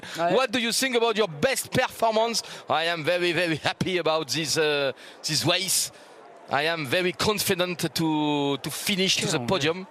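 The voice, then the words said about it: English with a heavy accent. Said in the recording (French): “accent terrible, mais je suis fluente, mais avec un accent.”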